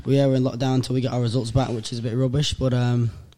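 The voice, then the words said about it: Sick, unsteady voice. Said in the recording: “I've fallen sick ... as you can tell by my voice, it's been a bit all over the shop”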